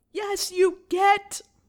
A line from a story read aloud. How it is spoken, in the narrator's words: Potter shouted in a watery voice through the hole in the door